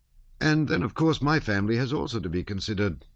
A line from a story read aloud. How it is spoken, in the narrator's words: Prince Vasily went on, testily